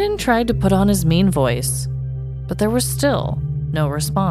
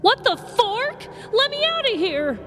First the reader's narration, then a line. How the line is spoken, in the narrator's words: yelled from inside the lifted car